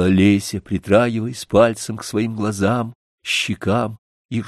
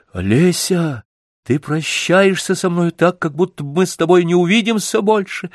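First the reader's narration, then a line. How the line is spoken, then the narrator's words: Frightened exclamation. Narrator (Russian): воскликнул я с испугом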